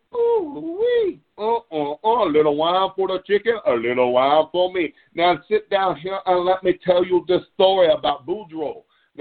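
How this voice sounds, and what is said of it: Put-on Cajun accent. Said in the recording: “I can't hide my southern accent, but I can cover it up with a Cajun accent”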